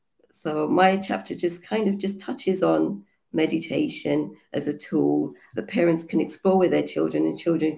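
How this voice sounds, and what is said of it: Hoarse, croaky voice. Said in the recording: “my voice is a bit hoarse because I've got a cold ... I'm sounding a bit croaky”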